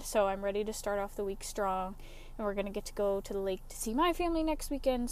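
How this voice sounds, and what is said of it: Out of breath, talking fast. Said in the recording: “I know I sound out of breath, it's just because I'm talking too fast.”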